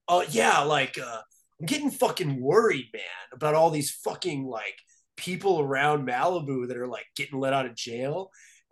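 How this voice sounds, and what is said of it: Imitates another person's voice. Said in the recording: “doing an impression”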